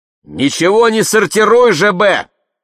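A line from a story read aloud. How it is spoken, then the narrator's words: Shouting into phone. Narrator (Russian): кричала в телефон Марианна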